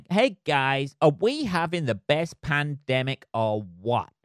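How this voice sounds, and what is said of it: Bad put-on American accent. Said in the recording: “He says in the worst American accent ever.”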